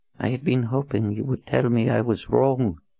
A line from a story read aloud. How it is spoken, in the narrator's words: Zed whispered